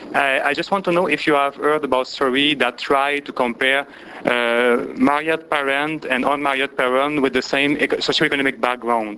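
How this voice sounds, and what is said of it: Strong accent. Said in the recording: “my strong accent.”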